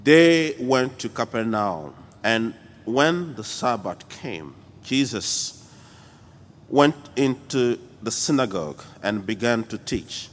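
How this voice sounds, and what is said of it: French accent. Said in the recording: “Forgive me with my French accent in the background.”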